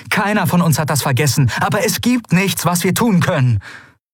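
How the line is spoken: Stern call. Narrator (German): rief Endriel streng

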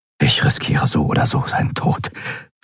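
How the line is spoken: Whisper. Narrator (German): flüsterte er

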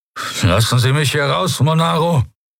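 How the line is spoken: Attempted angry command. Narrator (German): Telios wollte zornig klingen, befehlend, hart wie Stahl

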